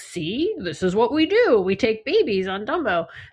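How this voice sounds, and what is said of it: Goofy cartoonish imitation of another person. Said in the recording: “my impression of my dad ... why do I sound like Goofy?”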